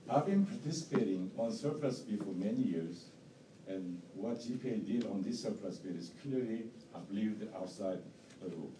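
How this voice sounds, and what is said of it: Strong non-native English accent. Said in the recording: “as my English is not perfect or not best. And I do have a strong accent”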